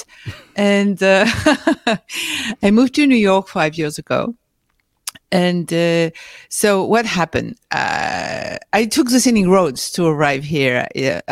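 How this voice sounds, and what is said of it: French accent. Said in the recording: “born and raised in France, as you can see with my accent”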